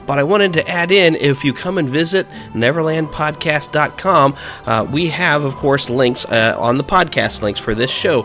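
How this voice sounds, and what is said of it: Voice off, sick-sounding. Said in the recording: “my voice is not quite what it normally is ... fighting off a really nasty cold virus”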